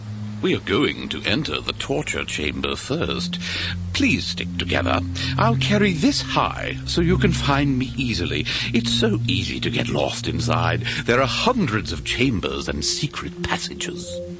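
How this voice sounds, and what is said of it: British accent. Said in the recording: “his British accent”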